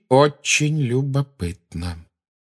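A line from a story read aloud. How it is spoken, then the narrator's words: Trembling voice. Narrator (Russian): сказал Гарри дрожащим голосом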